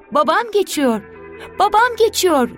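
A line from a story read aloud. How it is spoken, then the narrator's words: Shouting. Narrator (Turkish): diye bağırır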